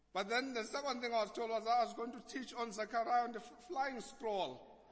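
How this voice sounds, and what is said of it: Thick Xhosa accent. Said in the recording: “I have quite a thick Xhosa accent”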